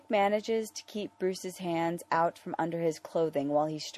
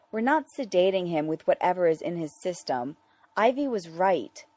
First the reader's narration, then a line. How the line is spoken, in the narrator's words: he gasps when Bruce leans down and nibbles on his neck